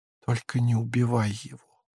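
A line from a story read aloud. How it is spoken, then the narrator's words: Barely audible whisper. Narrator (Russian): прошептала она ему в самое ухо, едва слышно, на пределе слышимости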